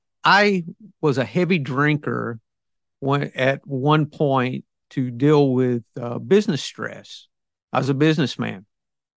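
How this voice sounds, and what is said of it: Southern US accent. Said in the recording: “I'm obviously from the South. I get a lot of kicks about my accent.”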